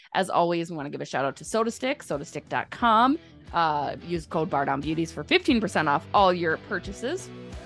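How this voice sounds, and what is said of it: Talking too fast. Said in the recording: “I'm talking too fast”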